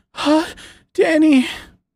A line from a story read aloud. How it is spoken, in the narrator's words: Anne moaned